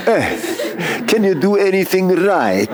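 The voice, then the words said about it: Put-on Italian accent. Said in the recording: “Forget the Italian accent, but it's so good. It's so good for the occasion”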